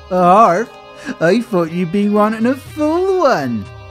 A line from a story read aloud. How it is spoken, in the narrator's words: laughed Sally